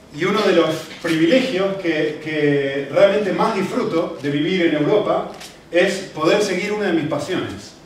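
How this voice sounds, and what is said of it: Argentine Spanish accent. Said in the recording (Spanish): “como pueden ver por mi acento... no soy europeo, eh, no soy español, soy de Argentina”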